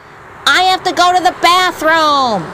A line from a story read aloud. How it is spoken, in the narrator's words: Benedict rudely blurted out